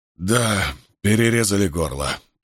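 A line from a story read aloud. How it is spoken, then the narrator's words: Hoarse rasp. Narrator (Russian): прохрипел Дипен Нек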